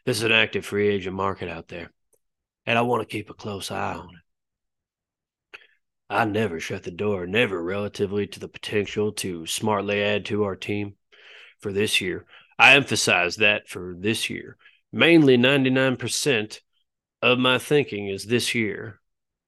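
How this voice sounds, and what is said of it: Jerry Jones impression. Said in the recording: “I should do this in a Jerry voice”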